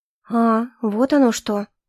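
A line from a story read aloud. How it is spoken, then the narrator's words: Confused. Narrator (Russian): растерянно произнесла я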